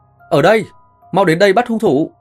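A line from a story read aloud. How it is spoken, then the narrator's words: Straining wounded shout. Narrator (Vietnamese): cố gắng ngồi dậy hét lên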